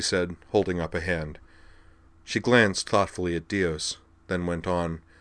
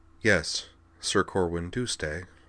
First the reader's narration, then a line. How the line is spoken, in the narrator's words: he said softly